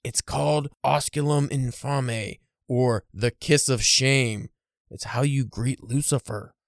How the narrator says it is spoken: whispered

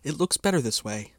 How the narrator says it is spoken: said, my voice faltering

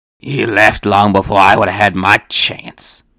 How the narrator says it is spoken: Sal growled

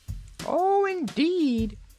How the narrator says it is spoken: exclaimed the grasshopper, who of course was Cap'n Bill, as he examined the young lady curiously

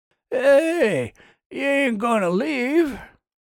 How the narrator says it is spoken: he called out

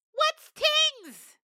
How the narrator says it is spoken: Mangoat wailed

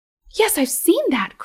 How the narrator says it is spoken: cried both children at once

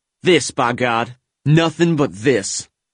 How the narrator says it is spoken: snarled the NCO as he glared at the two sheepish occupants of the foxhole

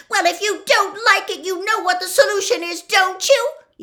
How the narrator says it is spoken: yelled Hermione

